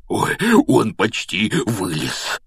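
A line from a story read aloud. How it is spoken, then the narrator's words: Whisper. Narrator (Russian): прошептал Хагрид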